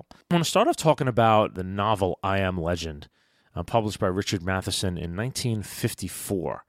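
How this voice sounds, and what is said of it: Slightly raspy voice. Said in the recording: “I apologize a little bit for my voice. It's a little raspy. ... I've got a little rasp in my voice.”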